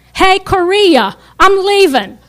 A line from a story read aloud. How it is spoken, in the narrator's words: he yelled to a nurse